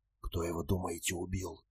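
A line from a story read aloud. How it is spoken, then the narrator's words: Whisper. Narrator (Russian): прошептала Бета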